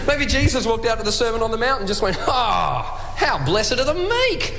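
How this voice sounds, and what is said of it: Australian accent. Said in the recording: “Adam Hill's Australian accents. We always love our Australian accents”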